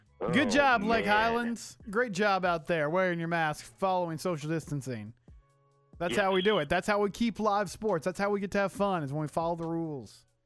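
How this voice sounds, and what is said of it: Sounds like a school principal. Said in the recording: “I sound like a high school principal.”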